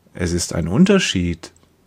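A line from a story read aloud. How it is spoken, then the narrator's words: Gentle. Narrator (German): sagt er sanft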